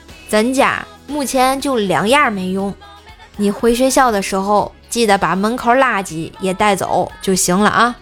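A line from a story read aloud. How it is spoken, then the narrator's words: Flat, casual. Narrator (Chinese): 瘦爸 淡淡的说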